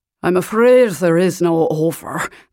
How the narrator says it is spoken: the driver said, in a thick Highland accent, his R's rolling magnificently

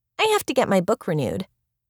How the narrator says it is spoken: Angel replied

